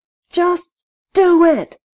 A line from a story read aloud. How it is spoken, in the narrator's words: screamed